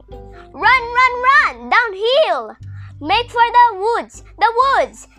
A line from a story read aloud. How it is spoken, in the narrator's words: She shouted out to Wilbur